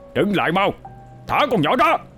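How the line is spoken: Roaring over the storm. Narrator (Vietnamese): Miệng ông gầm vang át cả tiếng mưa gió

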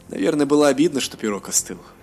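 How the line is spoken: Laughing. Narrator (Russian): засмеялся Элендил

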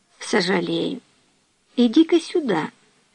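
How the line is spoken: Very quiet. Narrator (Russian): Эльса очень тихо сказал

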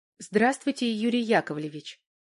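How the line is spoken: Quiet. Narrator (Russian): тихо сказала Валька

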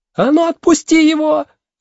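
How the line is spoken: Yelling. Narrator (Russian): завопила Меломори

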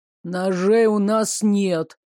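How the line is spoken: Gruff mutter. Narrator (Russian): буркнул Магута

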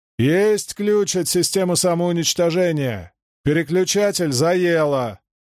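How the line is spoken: Shouted downward. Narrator (Russian): крикнул стоявшему внизу Хьюэлу

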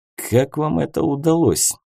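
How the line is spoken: Puzzled mutter. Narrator (Russian): озадаченно пробормотал капитан

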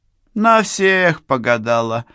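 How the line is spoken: Laughing reply. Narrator (Russian): смеясь, ответила хозяйка

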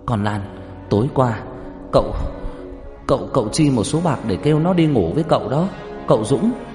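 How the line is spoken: Harsh emphatic tone. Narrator (Vietnamese): Bà Xuân gằn giọng nói

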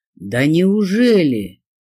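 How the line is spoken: Thundering menacing male voice. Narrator (Russian): прогремел позади меня грозный мужской голос

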